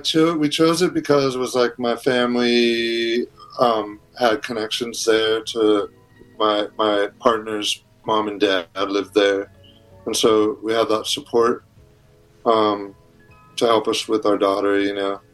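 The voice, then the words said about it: American accent. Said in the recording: “You're obviously got an American accent. You're from San Francisco.”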